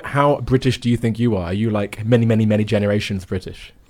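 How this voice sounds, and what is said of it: British accent. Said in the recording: “I'm always more conscious of my British accent”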